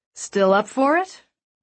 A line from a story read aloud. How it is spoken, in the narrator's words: Caden asked